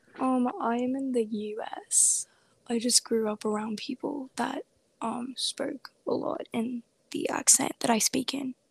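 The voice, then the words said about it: Accent resembling UK English. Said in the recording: “I've just noticed you have an accent. ... It kind of reminds me of UK English.”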